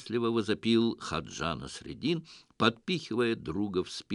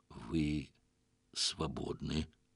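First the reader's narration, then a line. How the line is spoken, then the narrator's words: Dully forced out. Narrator (Russian): тупо выдавил Селим ибн Гарун аль-Рашид, опустив голову в знак признания своего поражения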